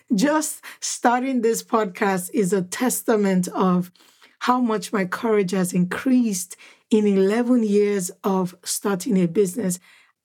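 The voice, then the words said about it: Excited, energetic speaking voice. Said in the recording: “You can hear the excitement in my voice.”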